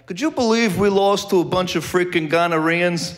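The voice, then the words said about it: Imitated New York accent. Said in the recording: “I swear I literally heard these two New Yorkers talking... it's that New York accent that makes everything sound all the more ridiculous”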